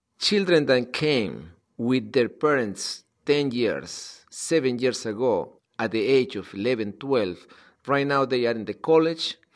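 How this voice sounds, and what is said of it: Non-native English accent. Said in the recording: “They don't speak with accent like me.”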